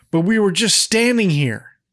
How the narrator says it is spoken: Peter pipes up and exclaims

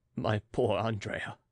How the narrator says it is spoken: he muttered

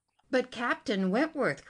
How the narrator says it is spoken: cried Louisa

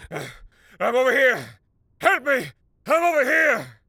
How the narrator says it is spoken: shouting

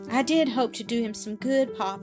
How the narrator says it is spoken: she sighed

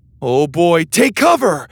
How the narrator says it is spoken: Doug shouted

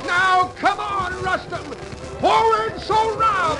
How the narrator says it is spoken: Uncle Homer grabbed the dangling rein and shouted

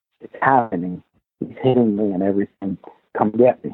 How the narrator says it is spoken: she's whispering into the phone

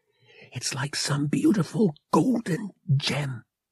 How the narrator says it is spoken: Bria whispered

